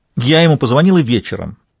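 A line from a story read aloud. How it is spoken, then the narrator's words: Irritated repetition. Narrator (Russian): раздраженно повторила Евгения Алексеевна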